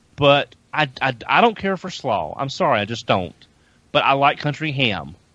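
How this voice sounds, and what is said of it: Southern US accent. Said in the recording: “I am from the South. I grew up in the South. ... I'm sure my accent doesn't give it away at all.”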